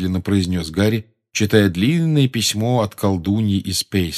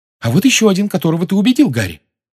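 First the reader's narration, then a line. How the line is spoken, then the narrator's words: Excited exclamation. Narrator (Russian): возбужденно воскликнула Гермиона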